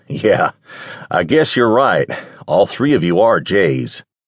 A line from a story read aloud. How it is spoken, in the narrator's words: Nick laughed and said